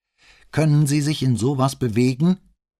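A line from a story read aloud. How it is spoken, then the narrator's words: Loud question over rain. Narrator (German): fragte er Bonsmann mit lauter Stimme, um sich gegen das Regenrauschen durchzusetzen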